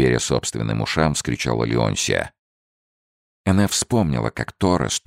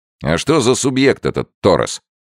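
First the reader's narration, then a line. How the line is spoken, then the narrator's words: Sharp question. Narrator (Russian): резко спросил Генри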